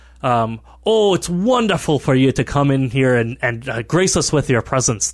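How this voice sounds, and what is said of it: Put-on character accent. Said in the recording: “I gotta get this accent right.”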